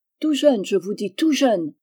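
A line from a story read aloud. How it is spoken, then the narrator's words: Woman exclaiming. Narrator (French): s'écriait une bonne femme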